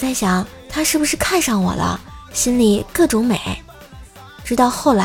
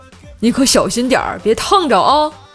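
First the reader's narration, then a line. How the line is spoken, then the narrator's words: Laughing hard. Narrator (Chinese): 美女笑得不行了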